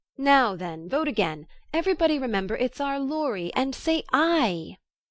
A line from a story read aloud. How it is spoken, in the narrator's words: cried Snodgrass excitedly